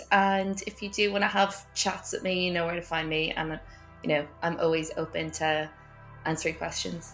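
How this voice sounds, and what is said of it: Noticeable unfamiliar accent. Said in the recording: “my strange accent”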